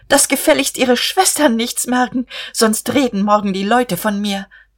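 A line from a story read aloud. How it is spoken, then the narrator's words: Calling after someone. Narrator (German): Guste rief ihm nach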